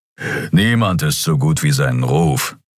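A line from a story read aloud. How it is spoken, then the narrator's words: Growled. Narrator (German): knurrte Keru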